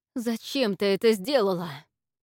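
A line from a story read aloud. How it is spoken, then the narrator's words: Angry, through clenched teeth. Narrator (Russian): Сквозь зубы спросила Инна, одолеваемая гневом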